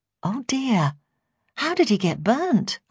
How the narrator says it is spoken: I asked, trying to keep my voice light and relaxed

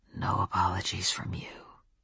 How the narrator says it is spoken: he told me, his voice soft enough to melt my knees and most of my other parts

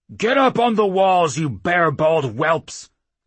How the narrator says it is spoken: the chief barked

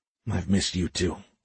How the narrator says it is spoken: he whispered back

